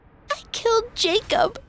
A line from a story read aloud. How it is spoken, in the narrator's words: sputtered